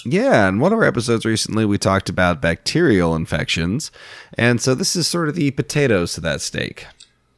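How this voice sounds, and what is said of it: Sick-sounding voice. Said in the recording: “With my voice, it sounds like I'm doing my my best Mark Frankum impression ... I think I'm fighting a virus”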